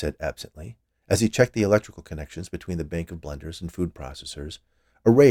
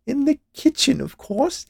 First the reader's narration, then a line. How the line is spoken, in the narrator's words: she added with a laugh